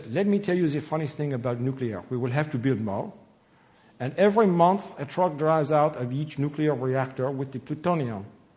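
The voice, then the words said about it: Put-on French accent. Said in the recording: “I get to do another foreign accent this way. I love to do accents. ... a member of the French Parliament”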